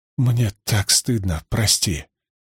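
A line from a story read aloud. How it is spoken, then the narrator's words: Quiet. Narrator (Russian): Мари тихо произнесла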